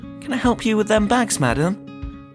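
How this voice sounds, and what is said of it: Very polite voice. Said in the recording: “in my politest voice”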